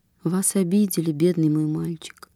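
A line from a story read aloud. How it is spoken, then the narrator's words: Plain. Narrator (Russian): спросила она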